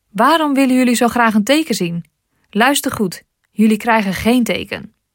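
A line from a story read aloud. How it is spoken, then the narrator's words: Deep sigh. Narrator (Dutch): Hij zuchtte diep en zei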